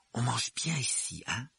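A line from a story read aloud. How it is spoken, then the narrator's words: Whisper through curtains. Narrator (French): chuchota Ron à Harry à travers les rideaux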